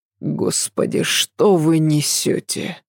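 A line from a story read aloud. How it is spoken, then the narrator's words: Groaned. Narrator (Russian): простонал Адам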